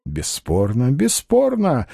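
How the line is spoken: Cheerful. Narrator (Russian): весело сказал Остап

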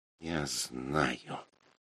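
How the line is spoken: Mumbling. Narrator (Russian): пробормотала Мара

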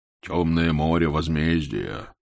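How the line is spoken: Deep bass voice. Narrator (Russian): заговорила она басом

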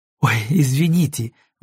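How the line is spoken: Exclamation. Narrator (Russian): воскликнула она

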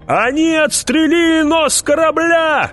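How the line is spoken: Shout. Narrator (Russian): крикнул кто-то

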